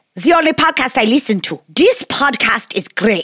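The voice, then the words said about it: Put-on German accent. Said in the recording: “my best German accent”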